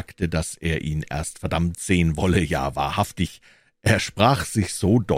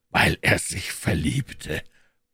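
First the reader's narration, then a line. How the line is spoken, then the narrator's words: Scornful grumbling. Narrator (German): brummte Scrooge, als sei dies das einzige Ding in der Welt, das noch lächerlicher als eine fröhliche Weihnacht ist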